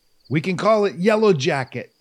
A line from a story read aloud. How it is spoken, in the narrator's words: called out the window